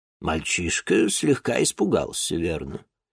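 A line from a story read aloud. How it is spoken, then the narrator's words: Even old woman's voice. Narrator (Russian): Ровным голосом продолжила старуха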